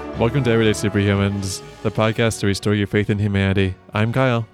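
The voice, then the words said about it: Serious public radio announcer voice. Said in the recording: “do my serious NPR voice ... trying to channel my inner Roman Mars”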